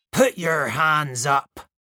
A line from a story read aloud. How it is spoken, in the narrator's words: snarled